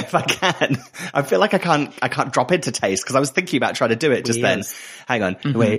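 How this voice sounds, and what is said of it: Usual voice. Nothing is said of it.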